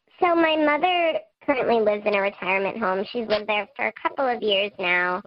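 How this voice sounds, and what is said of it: Electronically altered disguised voice. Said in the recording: “We've altered your voice using our voice changer, so no one will know who you are.”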